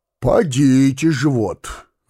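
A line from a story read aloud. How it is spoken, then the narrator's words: Sigh. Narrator (Russian): вздохнул Становой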